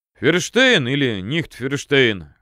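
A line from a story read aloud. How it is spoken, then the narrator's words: Chuckling. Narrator (Russian): хохотнул Палыч себе в усы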